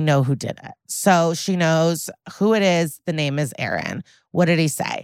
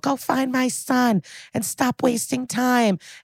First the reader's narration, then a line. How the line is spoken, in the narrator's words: The mom is yelling